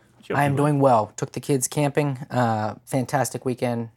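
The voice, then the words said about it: Slightly raspy voice. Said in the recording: “voice is a little raspy, but it's just from the campfire”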